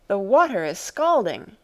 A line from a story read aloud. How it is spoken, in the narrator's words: I cried